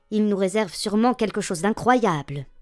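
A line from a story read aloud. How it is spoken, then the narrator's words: Murmured together. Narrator (French): murmurèrent-ils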